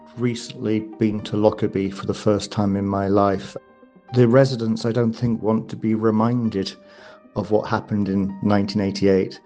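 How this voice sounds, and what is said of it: British accent. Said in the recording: “as you can probably tell from my accent, I'm also British”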